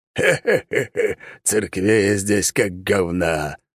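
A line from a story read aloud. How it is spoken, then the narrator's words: Monster's loud laughter. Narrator (Russian): расхохотался монстр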